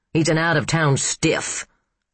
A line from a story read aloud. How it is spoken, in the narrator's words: Steiger snorted